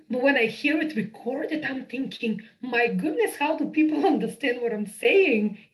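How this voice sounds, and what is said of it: Strong accent. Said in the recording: “my accent is not necessarily so strong ... It's like really, really strong.”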